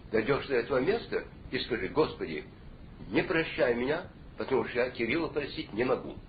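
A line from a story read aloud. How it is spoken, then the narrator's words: Calm. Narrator (Russian): спокойно сказал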